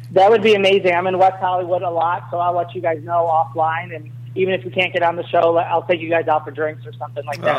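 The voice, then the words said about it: Chicago accent. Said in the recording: “please keep that great Chicago accent”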